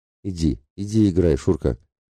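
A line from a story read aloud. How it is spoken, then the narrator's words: Trembling old man's voice. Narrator (Russian): дрогнувшим голосом проговорил дед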